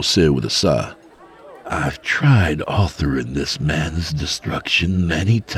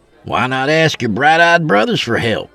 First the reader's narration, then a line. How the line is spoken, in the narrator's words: Fanuel scoffed